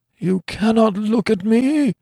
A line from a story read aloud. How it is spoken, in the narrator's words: he groaned in a hopeless way